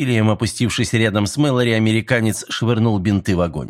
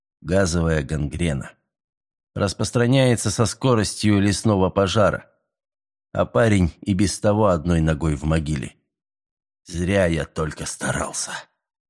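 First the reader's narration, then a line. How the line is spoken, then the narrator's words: Tired, dejected voice. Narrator (Russian): Усталым, подавленным голосом добавил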